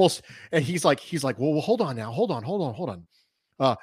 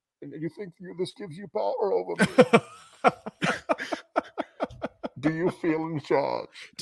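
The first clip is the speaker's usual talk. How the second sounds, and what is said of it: Imitates the villain Bane's voice. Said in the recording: “my Bane impression”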